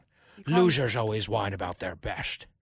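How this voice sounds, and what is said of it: Poor Sean Connery impression. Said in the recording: “Sean Connery says ... That was a terrible impression.”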